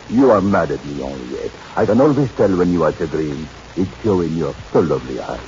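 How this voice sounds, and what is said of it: Phony put-on foreign accent. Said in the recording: “suppose you drop the phony accent”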